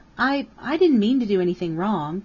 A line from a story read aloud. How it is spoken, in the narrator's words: Karen pleaded